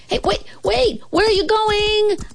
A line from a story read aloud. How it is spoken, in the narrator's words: I shouted